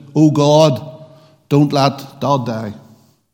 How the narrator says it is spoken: His daughter, Emma, she shouted

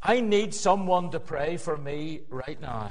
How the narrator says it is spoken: I sighed

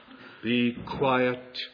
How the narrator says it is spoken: Jesus said sternly

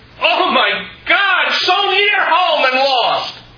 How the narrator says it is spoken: she cried

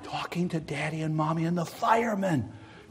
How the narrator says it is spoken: came the whispered answer

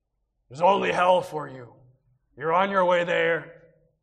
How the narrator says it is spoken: the lion now roars

